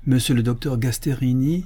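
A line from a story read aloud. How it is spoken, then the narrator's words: Exclaiming, priest. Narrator (French): s'écria l'abbé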